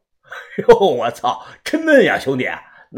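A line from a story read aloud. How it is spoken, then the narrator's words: Loud laughing. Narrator (Chinese): 有个中年光头冲着我就大笑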